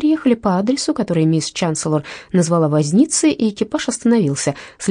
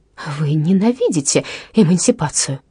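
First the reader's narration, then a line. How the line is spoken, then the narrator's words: Quiet exclamation. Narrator (Russian): тихо воскликнула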